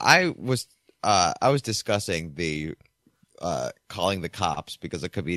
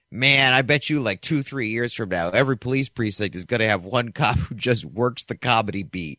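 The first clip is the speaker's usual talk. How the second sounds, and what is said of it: Strong Philadelphia accent. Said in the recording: “he said in a really hard Philly accent”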